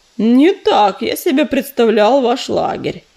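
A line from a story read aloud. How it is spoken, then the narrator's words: Deep bass voice. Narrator (Russian): пробасил он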